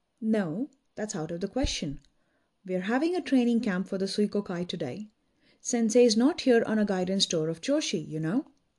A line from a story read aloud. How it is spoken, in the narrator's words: he retorted curtly